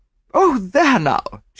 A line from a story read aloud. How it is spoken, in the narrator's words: she exclaimed